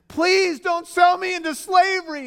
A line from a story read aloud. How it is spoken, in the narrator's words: Joseph was pleading